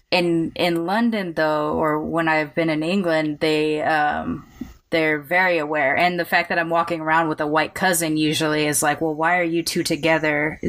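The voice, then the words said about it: American accent. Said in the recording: “they can hear my accent that I'm American”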